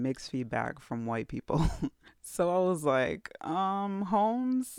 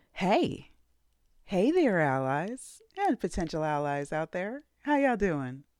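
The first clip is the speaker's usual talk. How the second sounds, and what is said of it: Put-on stereotypical white-person voice. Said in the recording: “in my Caucasity voice”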